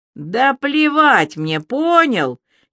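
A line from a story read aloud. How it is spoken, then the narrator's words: Shouted. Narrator (Russian): закричала Аля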